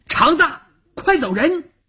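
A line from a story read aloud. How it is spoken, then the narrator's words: Shout. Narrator (Chinese): 邵月这么一喊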